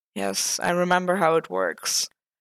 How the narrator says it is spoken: Matt muttered, reluctantly

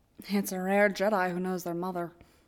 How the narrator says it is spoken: Obi-Wan murmurs, absent

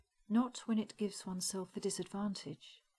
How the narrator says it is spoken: he said smoothly

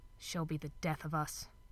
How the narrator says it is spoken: Crowley muttered

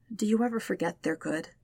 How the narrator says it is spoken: asks quietly

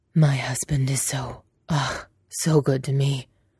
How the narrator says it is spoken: Lan Shan says in a breathy voice

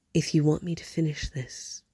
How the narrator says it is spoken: he said softly, finally

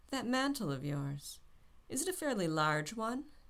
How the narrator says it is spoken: Norrington called lazily

